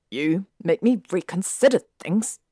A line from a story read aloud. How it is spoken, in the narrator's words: Draco snapped